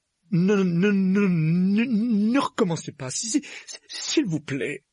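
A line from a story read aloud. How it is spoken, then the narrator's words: Pleading. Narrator (French): implorait-il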